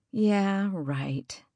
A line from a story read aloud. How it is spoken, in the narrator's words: she sighed